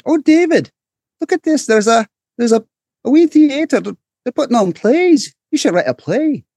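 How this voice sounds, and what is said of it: Imitated mother's voice, Scottish accent. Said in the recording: “I'll give you my best, my mom impersonation. My mom was Scottish.”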